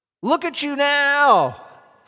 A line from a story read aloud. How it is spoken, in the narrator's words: they yelled at him